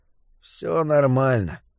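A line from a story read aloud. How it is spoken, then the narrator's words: Unsure mumble. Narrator (Russian): пробормотал Том без особой уверенности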